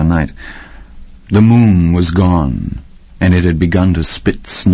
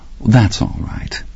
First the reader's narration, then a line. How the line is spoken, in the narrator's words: Nona said warmly, and I could feel her fury buzzing